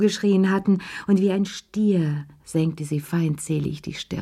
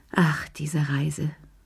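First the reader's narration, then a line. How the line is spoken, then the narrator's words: Sigh. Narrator (German): seufzte sie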